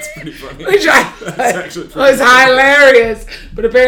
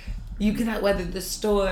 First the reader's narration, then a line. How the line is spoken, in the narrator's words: The devil whispered in my ear